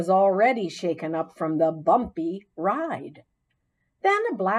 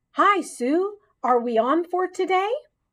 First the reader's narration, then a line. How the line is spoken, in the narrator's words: a familiar voice called out